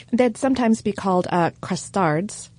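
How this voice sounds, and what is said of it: Word said in French accent. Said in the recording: “Which I just pronounced with a French accent.”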